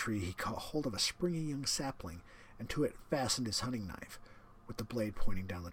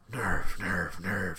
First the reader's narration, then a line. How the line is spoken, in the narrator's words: panted as he dashed along